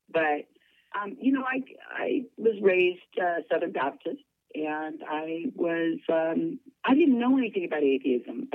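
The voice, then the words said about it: Husky voice from a cold. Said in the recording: “I've got a little bit of a cold, so if I sound extra sexy right now, it's the cold... That's not my normal voice”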